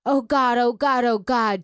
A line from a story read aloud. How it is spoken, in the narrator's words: Trina screamed